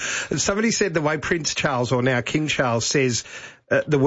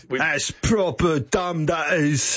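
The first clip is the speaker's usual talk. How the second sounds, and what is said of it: Put-on South London English accent. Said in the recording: “where would that accent be? South London? Is that South London? ... South, maybe a bit of the east”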